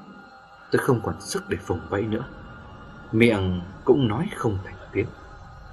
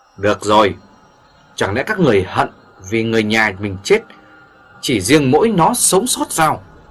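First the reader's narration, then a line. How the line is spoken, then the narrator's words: Exasperated loud shout. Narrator (Vietnamese): Vương Hầm không nhịn được cảnh đó, quát lớn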